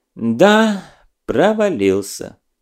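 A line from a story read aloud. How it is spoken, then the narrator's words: Heavy-sighing agreement. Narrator (Russian): тяжело вздохнув, согласилась Седова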